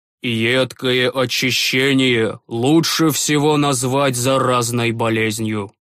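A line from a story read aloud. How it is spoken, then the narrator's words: Gloomy tone. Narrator (Russian): мрачно произнес отец Флатис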